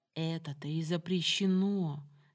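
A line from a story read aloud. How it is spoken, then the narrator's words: Quiet, firm. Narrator (Russian): все так же тихо припечатала Самара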